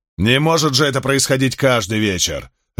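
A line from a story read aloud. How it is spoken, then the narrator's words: Barked. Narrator (Russian): рявкнул царь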